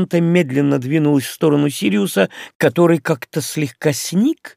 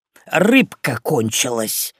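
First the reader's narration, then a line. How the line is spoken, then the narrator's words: Loud whispered announcement. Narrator (Russian): громким шепотом возвестил Крис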